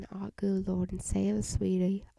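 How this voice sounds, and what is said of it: Bad put-on country accent, old lady. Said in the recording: “this is a really bad country accent... this one feels more like a, like an old lady, but not really... a little bit different than the other country accent I have been practicing”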